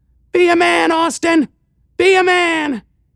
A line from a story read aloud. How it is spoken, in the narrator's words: weird buzzing screech telling